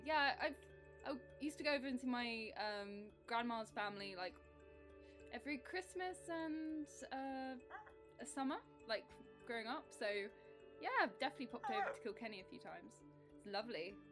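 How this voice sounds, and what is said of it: Strong English accent. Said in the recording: “I've got the most English accent you can ever imagine”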